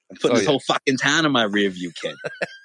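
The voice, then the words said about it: Put-on Boston accent. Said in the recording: “why are you talking like that? ... Where did that Boston accent come from?”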